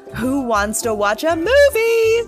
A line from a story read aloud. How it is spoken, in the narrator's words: she shouted